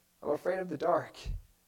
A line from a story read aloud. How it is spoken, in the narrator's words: In a quiet, terrified voice through sobs, you hear the admission